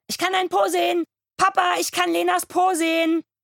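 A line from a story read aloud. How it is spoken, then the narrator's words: Excited shriek from another room. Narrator (German): kreischt Kurt, von einem Bein aufs andere hopsend, eine Choreografie aus Aufregung und wahrscheinlich voller Blase, aus dem Schlafzimmer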